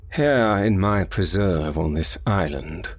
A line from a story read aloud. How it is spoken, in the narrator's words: he said in the same slow tone